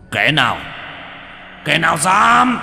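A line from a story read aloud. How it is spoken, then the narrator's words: Frowning roar. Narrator (Vietnamese): Hắn cau mày gầm lên một tiếng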